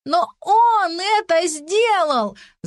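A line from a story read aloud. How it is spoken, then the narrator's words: Shouting. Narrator (Russian): закричала сестра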